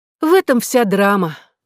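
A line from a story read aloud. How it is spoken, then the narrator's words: Sigh. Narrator (Russian): вздохнула та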